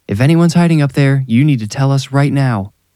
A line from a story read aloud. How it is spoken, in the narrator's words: Mike yelled